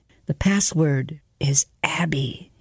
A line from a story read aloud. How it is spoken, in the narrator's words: he whispered